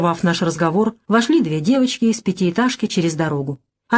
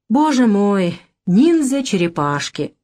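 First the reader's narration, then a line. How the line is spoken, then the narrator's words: Long drawn-out sigh. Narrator (Russian): протяжно вздохнул Василий Матвеевич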